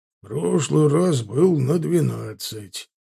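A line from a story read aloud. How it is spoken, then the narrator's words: Half-orc grumbling. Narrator (Russian): проворчал полуорк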